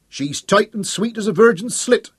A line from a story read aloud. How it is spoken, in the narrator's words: shouted up